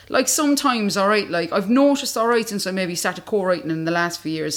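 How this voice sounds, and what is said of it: Strong regional non-London accent. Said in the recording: “you can clearly hear my accent hasn't changed... It's slightly toned down a bit, probably since I've moved to London”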